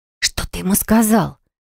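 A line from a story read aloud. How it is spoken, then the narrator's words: Very quiet whisper. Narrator (Russian): Тихим-тихим шепотом спросила я, опасаясь, что звук разлетится по круглому залу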